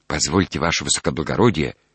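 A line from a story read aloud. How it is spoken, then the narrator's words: Whisper. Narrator (Russian): шепнул бы мне в это время становой пристав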